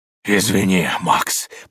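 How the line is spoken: Hoarse wheeze. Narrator (Russian): прохрипел он

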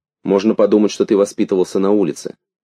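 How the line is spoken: Stern. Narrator (Russian): сказала Магда строго

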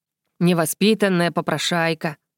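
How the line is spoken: Disapproving grumble, tongue click. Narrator (Russian): проворчал Вардейк, неодобрительно цокая языком

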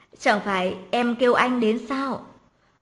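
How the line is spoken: Ordinary even tone. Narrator (Vietnamese): Đoạn Mặc Ngôn nói với giọng điệu bình thường

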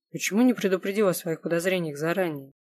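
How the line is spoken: Grim. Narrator (Russian): мрачно спросила Алукард

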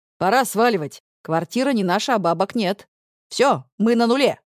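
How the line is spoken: Loud shrill laughter. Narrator (Russian): Она вдруг громко и пронзительно смеется мне прямо в лицо

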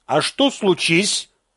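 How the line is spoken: Stern question. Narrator (Russian): строго спросил Корин

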